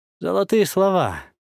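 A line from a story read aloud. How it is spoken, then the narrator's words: Smirking, weak groan. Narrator (Russian): усмехнулся я, слабо застонав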